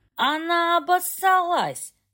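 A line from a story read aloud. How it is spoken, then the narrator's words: Yelled, man. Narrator (Russian): завопил блондин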